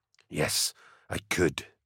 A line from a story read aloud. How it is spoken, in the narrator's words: said McCall, a whisper